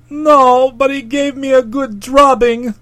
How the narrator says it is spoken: sobbed poor Pond

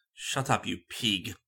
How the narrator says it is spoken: he growled

